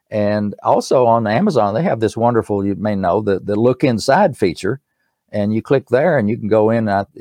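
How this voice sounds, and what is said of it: East Tennessee accent. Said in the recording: “my East Tennessee accent”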